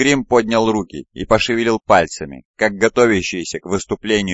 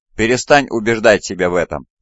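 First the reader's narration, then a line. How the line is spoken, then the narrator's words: Laughing. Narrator (Russian): отражение рассмеялось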